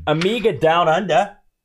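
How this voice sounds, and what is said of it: Put-on Australian accent. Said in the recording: “did you catch my accent there? ... That was fantastic. You sound just like Paul Hogan.”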